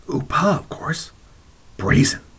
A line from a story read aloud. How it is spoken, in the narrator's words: would lean closer and whisper harshly